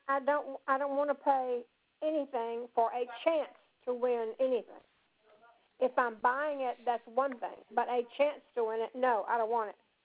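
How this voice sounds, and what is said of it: Raised, emphatic voice. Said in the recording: “I'm raising my voice, but it's not for you. I'm just emphasizing”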